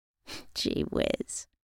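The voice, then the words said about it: Teasing voice. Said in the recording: “in a teasing voice.”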